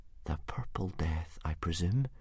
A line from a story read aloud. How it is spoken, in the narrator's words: whispered Hiccup shakily